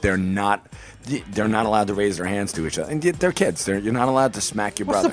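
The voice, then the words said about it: Hoarse voice. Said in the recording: “my voice is so hoarse this morning. Because, I screamed at the boys yesterday.”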